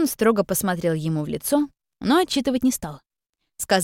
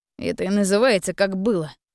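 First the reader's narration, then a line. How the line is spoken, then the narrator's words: Grumbling. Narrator (Russian): проворчал Слава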